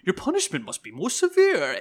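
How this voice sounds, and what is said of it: Poor Bane movie-villain voice impression. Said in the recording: “my Bane impression is probably awful”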